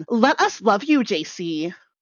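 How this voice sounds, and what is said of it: Imitates another person's voice. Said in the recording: “my best Tina impression”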